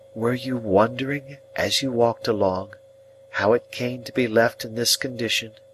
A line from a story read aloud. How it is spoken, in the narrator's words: she said quietly